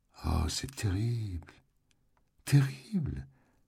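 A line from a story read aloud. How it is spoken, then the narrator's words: Small trembling voice. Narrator (French): fit-elle d'une petite voix flageolante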